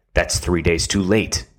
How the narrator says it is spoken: his father answered sternly

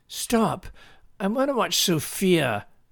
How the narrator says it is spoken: Lindsay cried

